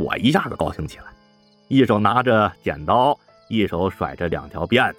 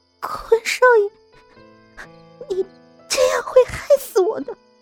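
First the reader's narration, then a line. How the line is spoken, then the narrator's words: Frightened, trembling voice. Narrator (Chinese): 吓得 止住了哭声 哆哆嗦嗦地说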